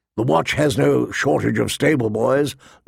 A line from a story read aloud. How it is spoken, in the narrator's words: Lord Mormont grumbled